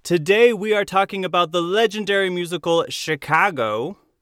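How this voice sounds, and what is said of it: Slight put-on Chicago accent. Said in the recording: “I had like a little Chicago accent”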